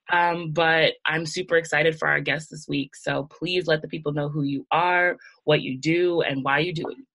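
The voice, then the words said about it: Nasal, raspy sick voice. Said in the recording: “I'm a little nasally, got a little sick ... my voice is definitely a little raspy”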